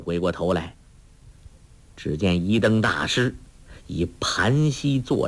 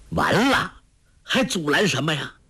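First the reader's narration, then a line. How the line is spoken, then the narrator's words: Angry. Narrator (Chinese): 那书生怒道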